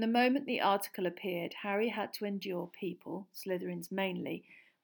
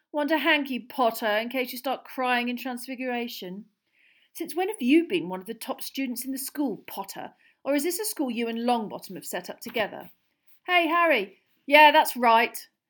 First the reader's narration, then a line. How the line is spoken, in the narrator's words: Harry found himself shouting, having had just about enough